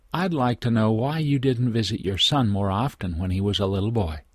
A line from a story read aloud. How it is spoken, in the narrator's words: Quietly but firmly, she continued